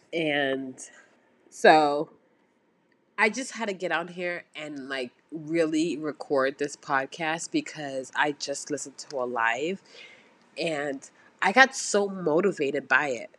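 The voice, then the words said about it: Voice sounding sick. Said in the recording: “my voice might be sounding a little under the weather”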